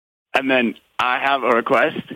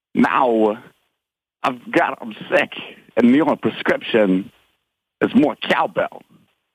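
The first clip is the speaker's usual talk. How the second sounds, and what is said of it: Pretty good Christopher Walken impression. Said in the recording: “my Christopher Walken impression ... Not bad ... Pretty good.”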